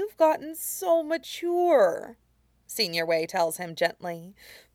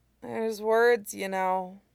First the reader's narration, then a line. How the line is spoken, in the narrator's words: Jingyi mumbles